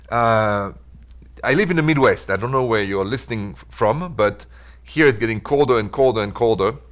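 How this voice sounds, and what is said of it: French Parisian accent. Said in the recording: “my accent is from Paris”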